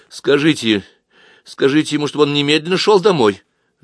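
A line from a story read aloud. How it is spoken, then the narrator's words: Irritated woman. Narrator (Russian): раздраженно заговорила женщина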